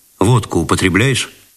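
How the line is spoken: Dry question. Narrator (Russian): сухо спросил он

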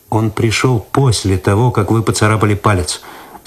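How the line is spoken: Calm objection. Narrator (Russian): спокойно возразил Цветков

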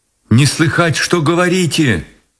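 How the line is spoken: Shouting. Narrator (Russian): прокричала она

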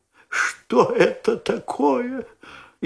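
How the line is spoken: Frightened whisper. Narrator (Russian): испуганным шепотом спросила леди

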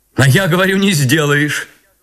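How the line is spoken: Spoken, then loud laughter. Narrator (Russian): проговорила она и громко засмеялась

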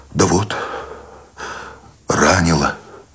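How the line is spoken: Tired exhale. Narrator (Russian): Сущень устало выдохнул

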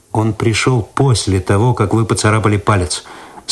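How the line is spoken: Calm objection. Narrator (Russian): спокойно возразил Цветков

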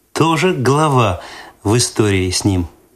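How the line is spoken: Laughing. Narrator (Russian): засмеялась Светлана

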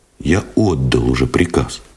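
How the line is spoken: Plain. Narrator (Russian): ответил Новиков

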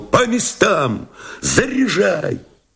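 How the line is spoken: Shouting. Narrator (Russian): он крикнул

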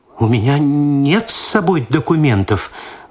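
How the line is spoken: Frightened babble. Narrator (Russian): в испуге пролепетала Татьяна Спиридоновна

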